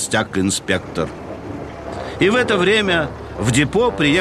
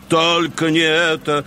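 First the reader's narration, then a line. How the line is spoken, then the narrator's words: Groaning in unison. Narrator (Russian): простонали Ари, Дизель и Берт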